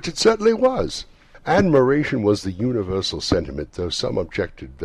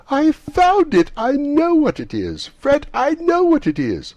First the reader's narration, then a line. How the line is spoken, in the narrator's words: the plump sister, falling into a similar state, cried out